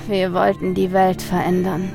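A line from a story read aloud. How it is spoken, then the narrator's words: Man sighing. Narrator (German): seufzte der Mann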